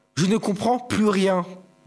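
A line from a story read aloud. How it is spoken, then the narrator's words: Plain. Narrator (French): dit Petit Papy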